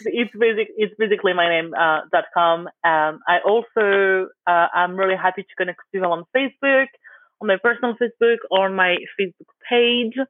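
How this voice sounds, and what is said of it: Speaks with a noticeable accent. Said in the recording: “because my accent”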